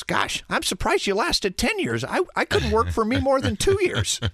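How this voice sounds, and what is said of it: Impression of Coach Tom Izzo. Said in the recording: “Pretty good Izzo impression.”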